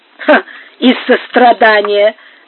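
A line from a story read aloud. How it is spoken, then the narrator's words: Sarcastic laughing. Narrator (Russian): засмеялась Сара Кондора язвительно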